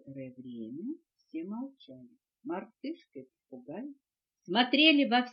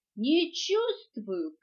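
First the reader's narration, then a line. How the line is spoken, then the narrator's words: Shout. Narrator (Russian): крикнула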